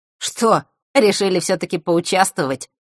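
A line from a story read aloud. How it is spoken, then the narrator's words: Snorting. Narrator (Russian): хмыкнул он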